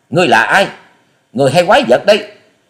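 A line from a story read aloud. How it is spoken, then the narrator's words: Panicked girl shouting, forced calm. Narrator (Vietnamese): Thiếu nữ áo xanh hốt hoảng gượng giọng bình tĩnh quát to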